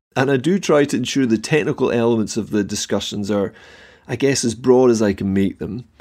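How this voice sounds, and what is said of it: Scottish accent. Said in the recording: “my own country of Scotland ... I do hope that the accent is easy for you to understand”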